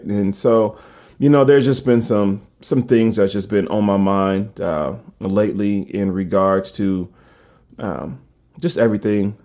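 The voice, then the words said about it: Deep, groggy morning voice. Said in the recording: “my voice is so deep at this point in time. I'm still waking up. ... to kind of get my voice warmed up.”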